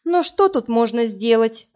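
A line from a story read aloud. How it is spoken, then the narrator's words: Sighing. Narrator (Russian): вздохнула Марина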